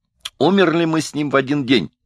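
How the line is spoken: Exclaiming. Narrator (Russian): воскликнул Мезенцев

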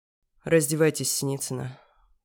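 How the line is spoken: Through gritted teeth. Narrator (Russian): процедил Руслан Евгеньевич

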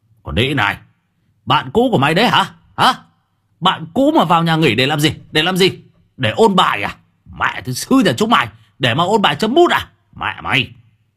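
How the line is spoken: Raised voice. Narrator (Vietnamese): Thằng Đức cao giọng

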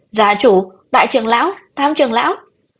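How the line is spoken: Panicked scream. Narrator (Vietnamese): Bạch Nhữ Nghi thất thanh hét lên

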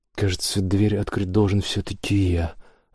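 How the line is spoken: Sighing. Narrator (Russian): вздохнул Кристофер

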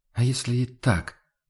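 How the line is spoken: Quiet reply. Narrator (Russian): откликнулся Хагнар тихо

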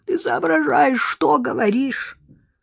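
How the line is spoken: Wheezed. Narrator (Russian): просипел он

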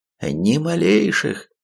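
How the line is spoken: Joyful, healer. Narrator (Russian): радостно сообщил лекарь

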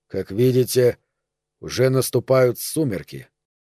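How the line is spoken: Muttered. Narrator (Russian): Он пробормотал

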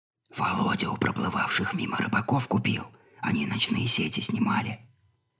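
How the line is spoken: Embarrassed whisper. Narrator (Russian): залившись румянцем, шепотом пояснила она

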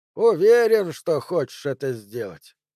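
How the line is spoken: Plain. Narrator (Russian): спросил Магир

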